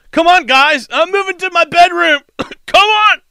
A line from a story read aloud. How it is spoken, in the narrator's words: shouted to the other 2 Americans